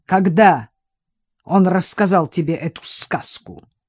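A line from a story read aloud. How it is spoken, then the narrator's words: Sharp interruption. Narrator (Russian): резко перебил Тягунов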